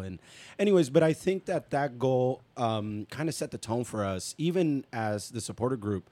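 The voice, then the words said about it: Hoarse, nearly lost voice. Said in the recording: “my voice is gone. Really, it's because of the the chanting.”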